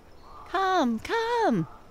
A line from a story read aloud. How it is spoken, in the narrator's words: cried the other whirligigs